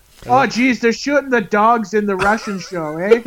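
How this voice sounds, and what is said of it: Put-on Canadian accent. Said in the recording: “Does everybody slip into your Canadian accents?”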